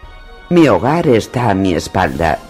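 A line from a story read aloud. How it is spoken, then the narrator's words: Grumbled. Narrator (Spanish): refunfuñó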